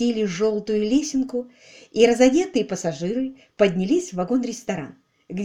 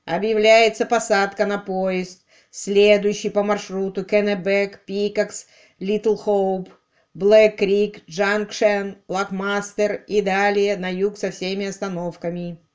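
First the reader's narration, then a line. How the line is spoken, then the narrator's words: Stern conductor's deep bass. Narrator (Russian): кондуктор со строгим лицом пробасил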